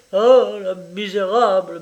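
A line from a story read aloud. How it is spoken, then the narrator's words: Thick rage-filled stammer. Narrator (French): bégaya-t-il d'une langue épaissie par la rage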